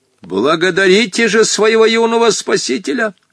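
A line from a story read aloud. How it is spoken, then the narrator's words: Stern shout. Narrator (Russian): Сурово крикнул Хоттабыч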